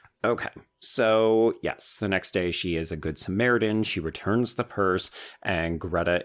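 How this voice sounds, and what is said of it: Usual voice. Nothing is said of it.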